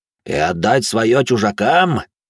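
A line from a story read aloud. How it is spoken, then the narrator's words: Growled. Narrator (Russian): зарычал смуглый горбоносый рик с народа гор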